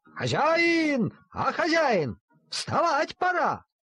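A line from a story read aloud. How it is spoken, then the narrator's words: Shouting machine. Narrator (Russian): машинка сама собиралась и кричала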